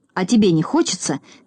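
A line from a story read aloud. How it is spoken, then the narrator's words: Angry grumble. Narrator (Russian): сердито проворчал Торопышка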